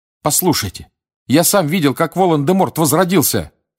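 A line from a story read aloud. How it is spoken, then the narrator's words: Shouted. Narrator (Russian): крикнул Гарри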